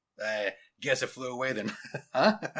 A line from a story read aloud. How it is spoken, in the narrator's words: chuckled Principal Hargraves